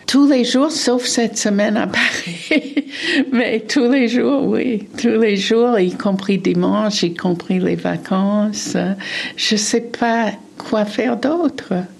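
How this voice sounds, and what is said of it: Pleasant foreign accent. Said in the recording (French): “son bel accent”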